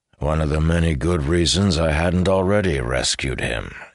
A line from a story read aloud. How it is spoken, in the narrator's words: he said, a little dryly